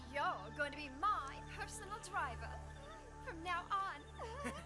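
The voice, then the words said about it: English accent. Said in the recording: “Why is she using an English accent?”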